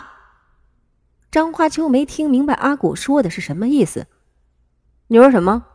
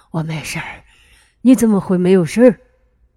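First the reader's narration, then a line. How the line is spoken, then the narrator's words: Exhausted, panting. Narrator (Chinese): 阿古累得不行，喘着粗气对张花秋说道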